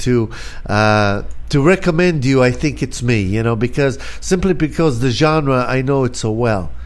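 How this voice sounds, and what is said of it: Israeli accent. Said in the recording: “I'm from Tel Aviv, actually, and I came here in 1976 ... haven't quite lost my accent”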